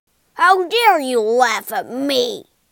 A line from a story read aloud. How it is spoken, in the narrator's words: Toad roared